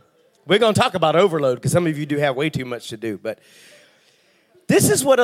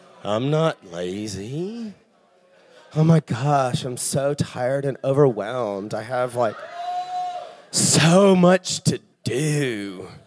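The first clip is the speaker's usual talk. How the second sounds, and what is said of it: Lazy, whiny voice. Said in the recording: “Can you give me a lazy voice?”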